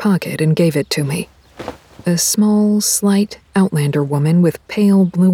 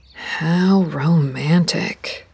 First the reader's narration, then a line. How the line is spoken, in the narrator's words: I drawled